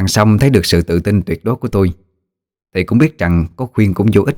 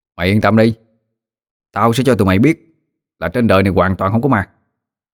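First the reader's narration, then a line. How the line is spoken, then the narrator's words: Cocky, firm. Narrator (Vietnamese): Tôi vênh mặt đáp bằng giọng chắc nịch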